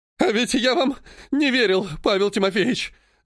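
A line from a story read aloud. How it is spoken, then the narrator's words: Sobbing voice. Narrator (Russian): рыдающим голосом сказал цесаревич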